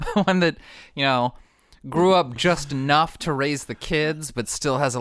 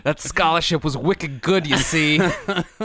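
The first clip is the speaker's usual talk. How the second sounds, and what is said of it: Put-on Boston accent. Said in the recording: “This Pacific Northwest mom has a Boston accent.”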